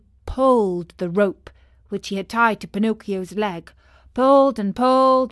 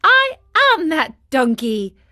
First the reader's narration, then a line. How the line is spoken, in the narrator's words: answered the marionette, laughing